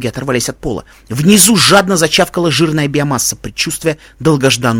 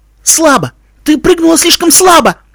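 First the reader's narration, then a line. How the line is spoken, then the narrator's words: Desperate yell. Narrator (Russian): отчаянно завопил Тим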